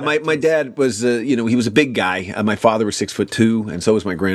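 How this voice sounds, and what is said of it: Usual voice. Nothing is said of it.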